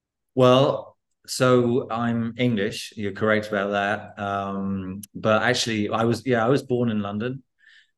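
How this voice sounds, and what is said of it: British English accent. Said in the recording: “You've clearly grown up in and around the UK, I'm guessing, from your accent.”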